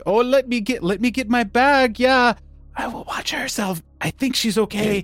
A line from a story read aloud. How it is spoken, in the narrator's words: says, like, whispering, like